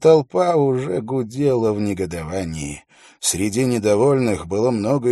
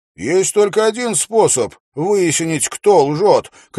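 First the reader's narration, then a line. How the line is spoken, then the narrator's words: Shout. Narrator (Russian): крикнул Уилл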